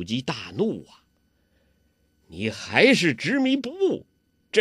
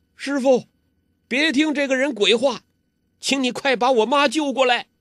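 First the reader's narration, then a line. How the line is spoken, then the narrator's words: Loud shout. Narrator (Chinese): 高声叫道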